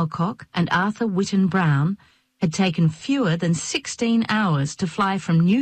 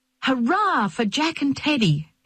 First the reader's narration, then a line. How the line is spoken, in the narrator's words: Nellie cried, brandishing a newspaper